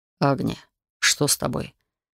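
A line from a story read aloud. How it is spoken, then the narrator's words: Soft, gentle question. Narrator (Russian): Мягко спросил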